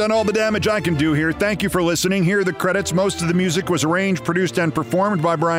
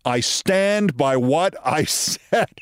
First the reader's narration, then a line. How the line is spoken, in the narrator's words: the now Hall of Famer Scott Rolen laughed and he said